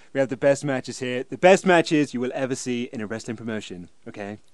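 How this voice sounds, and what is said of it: Donald Trump impression. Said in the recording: “I thought Kurt Angle sounded a bit like Trump here... you do a better impression... Have I done the Trump impression on here?”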